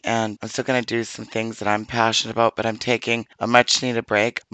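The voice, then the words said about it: Voice in bad shape. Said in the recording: “My voice is obviously terrible.”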